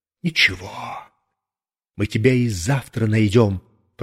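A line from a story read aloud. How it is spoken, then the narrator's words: Young man hissing. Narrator (Russian): прошипел мне вдогонку все тот же парень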